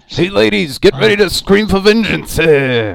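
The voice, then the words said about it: Bad impression of a cartoon character. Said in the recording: “Carl, I think that's a Carl from Aqua Teen. Sorry, I do a bad Carl impression”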